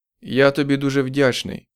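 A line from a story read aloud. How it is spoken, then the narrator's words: Gentle. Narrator (Ukrainian): лагідно мовив Річардс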